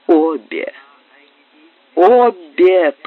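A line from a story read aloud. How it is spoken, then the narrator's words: Sick person moaning. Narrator (Russian): простонал больной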